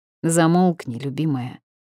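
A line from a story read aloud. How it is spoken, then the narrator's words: Grumbling. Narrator (Russian): проворчал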